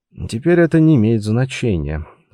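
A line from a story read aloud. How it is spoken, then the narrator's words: Sigh. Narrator (Russian): вздохнул нарушитель спокойствия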